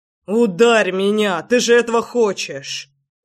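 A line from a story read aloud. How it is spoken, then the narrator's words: Growled by a beast. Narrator (Russian): Рычал зверь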